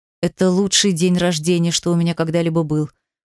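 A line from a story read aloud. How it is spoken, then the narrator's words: Hoarse wheeze. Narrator (Russian): просипел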